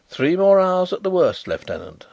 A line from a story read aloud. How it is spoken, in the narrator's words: said Carrados cheerfully